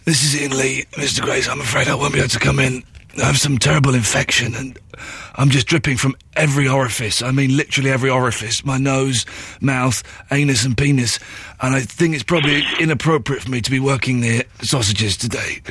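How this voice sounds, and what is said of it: Fake sick voice. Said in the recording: “That, Andrea, is how you phone up and do a sick voice”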